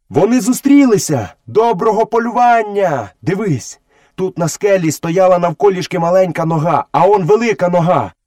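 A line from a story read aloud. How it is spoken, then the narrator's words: Boy shouting. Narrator (Ukrainian): хлопчик, який не так близько нахилявся до землі, як пантера, закричав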